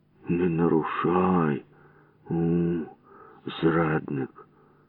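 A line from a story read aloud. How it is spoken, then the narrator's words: Muttered. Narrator (Ukrainian): пробурмотів я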